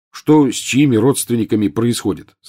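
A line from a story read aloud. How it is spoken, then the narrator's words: Plain. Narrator (Russian): сказал Рон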